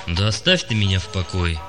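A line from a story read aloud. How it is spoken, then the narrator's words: Gloomy. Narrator (Russian): мрачно сказал Юрига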